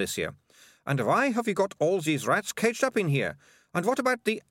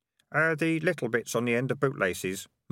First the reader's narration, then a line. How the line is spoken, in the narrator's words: mumbled Keith